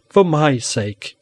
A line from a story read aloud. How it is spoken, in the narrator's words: she pleaded, and the tears filled her blue eyes